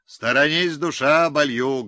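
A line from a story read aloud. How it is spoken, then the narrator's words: Loud bark. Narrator (Russian): гаркнул Пустобаев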